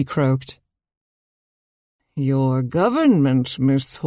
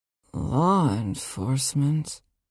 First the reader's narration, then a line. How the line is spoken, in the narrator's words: She murmured